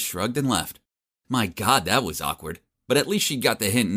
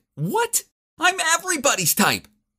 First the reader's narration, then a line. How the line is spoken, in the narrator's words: She shouted back